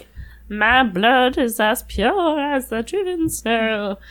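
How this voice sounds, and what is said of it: Imitates a fictional character's voice. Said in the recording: “That's your Neville? ... That's my Neville impression. It's very good.”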